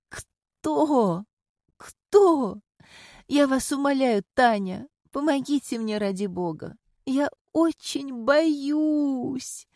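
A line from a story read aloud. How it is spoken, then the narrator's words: Sobbing grief-stricken woman. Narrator (Russian): рыдала убитая горем женщина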